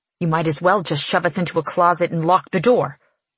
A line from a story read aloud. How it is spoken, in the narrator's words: I snarl